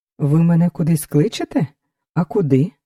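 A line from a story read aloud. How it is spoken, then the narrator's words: Calm question. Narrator (Ukrainian): Спокійно спитав Лясопольський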